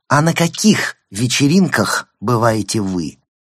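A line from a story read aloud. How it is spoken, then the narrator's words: Aggressive question. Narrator (Russian): Гаэль задала вопрос настолько агрессивно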